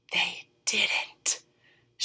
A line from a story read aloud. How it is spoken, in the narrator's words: she breathed